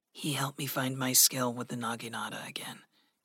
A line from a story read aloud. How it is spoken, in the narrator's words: Gregory said softly